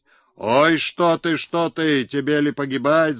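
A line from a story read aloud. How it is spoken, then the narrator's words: Crowd shouting. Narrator (Russian): закричали в народе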